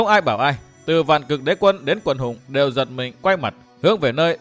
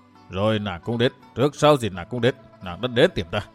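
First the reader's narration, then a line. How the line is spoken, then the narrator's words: Low sighing lament. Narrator (Vietnamese): khẽ thở, thấp giọng than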